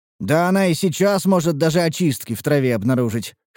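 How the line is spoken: Wry grunt. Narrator (Russian): хмыкнул я

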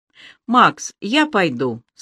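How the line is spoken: Plain. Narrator (Russian): сказала она

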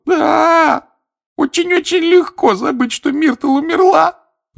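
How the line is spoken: Sobbing. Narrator (Russian): рыдала плакса Миртл

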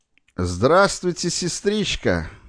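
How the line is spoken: Mocking greeting. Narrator (Russian): приветствовал он ее насмешливым голосом

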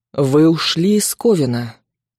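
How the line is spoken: Quiet male growl. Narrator (Russian): тихо рычит мужчина

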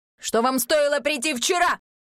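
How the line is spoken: Sudden bark. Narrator (Russian): вдруг рявкнул

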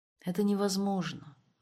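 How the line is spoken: Sad reply. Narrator (Russian): грустно отозвалась Тамара

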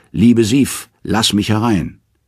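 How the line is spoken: Calling. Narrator (German): Er ruft

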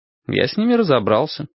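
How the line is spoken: Calm. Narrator (Russian): спокойно произнес я

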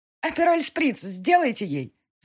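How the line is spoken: Laughing. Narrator (Russian): Засмеялась Диана

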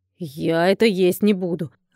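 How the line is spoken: Dragon's growl. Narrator (Russian): рыкнул дракон

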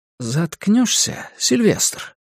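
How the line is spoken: Soft insistent voice. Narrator (Russian): полюбопытствовал Дэвин своим мягким напористым голосом

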